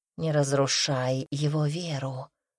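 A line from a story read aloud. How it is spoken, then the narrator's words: Quiet tigress. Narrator (Russian): так же тихо произнесла тигрица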